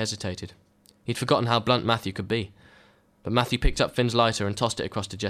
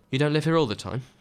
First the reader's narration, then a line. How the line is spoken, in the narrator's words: Jesse asked